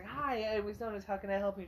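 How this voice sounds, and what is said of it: Polite customer service voice. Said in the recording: “your best customer service voice you can.”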